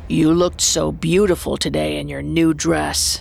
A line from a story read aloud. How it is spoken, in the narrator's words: said the groundskeeper, practically growling